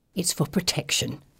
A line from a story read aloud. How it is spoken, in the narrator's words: whispers